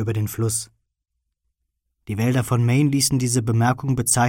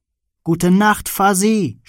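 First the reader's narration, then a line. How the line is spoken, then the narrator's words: Shouting very loudly. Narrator (German): schrie er so laut er konnte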